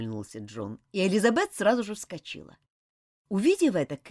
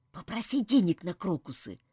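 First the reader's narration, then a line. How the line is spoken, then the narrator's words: Whisper. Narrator (Russian): прошептал он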